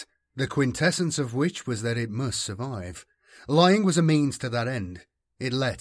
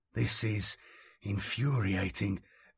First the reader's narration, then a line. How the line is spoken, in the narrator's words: Columan muttered